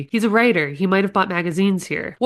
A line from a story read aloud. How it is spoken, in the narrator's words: said eagerly